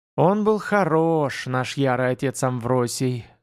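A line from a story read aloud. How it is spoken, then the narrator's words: Voluptuous sigh, old witch. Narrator (Russian): сладострастно вздохнула старая ведьма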